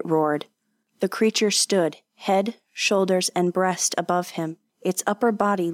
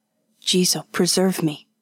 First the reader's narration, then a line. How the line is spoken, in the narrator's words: Kanishi whispered